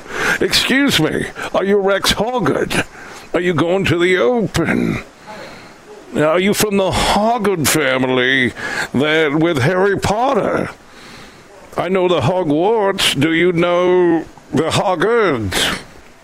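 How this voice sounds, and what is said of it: Put-on British accent. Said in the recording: “Is that a British accent or is it me having a stroke? ... is ... British accent a medical condition”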